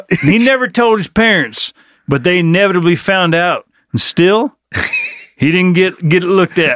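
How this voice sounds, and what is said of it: Thick regional accent. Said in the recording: “That accent was a little thick on that line.”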